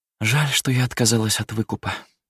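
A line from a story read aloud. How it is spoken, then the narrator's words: Sighing woman. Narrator (Russian): вздохнула она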